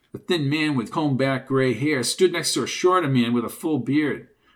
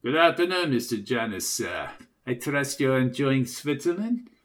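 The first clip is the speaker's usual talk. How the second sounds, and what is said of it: Distinct German accent. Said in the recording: “in a distinct German voice”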